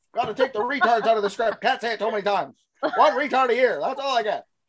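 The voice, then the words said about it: Put-on newspaper mogul character voice. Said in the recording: “That voice you just did was terrific ... Insane Richard voice ... It sounds like newspaper mogul to me”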